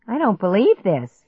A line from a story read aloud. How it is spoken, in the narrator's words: he exclaimed